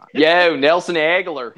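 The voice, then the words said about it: Put-on Philadelphia accent. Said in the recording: “your Philly accent?”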